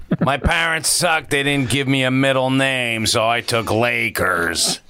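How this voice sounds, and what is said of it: Imitates another person's voice. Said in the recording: “does a crazy awesome Adam Carolla impersonation”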